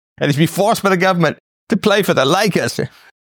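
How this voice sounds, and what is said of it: Slight British accent. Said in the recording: “I had a slight British accent there”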